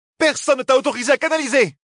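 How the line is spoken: Shouting. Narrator (French): cria Merylil

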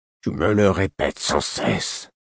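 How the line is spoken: Muffled voice. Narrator (French): fit-il d'une voix sourde

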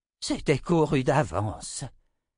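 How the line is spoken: Sighing. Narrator (French): soupira-t-il

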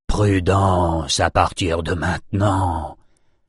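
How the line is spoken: Whispered. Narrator (French): souffla Nathan

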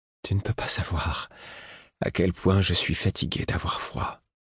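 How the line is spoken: Murmured. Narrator (French): murmura-t-il

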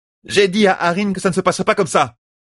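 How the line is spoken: Exclaiming. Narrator (French): s'écria-t-elle

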